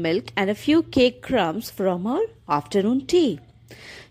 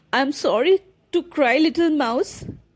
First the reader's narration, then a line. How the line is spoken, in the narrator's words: she sobbed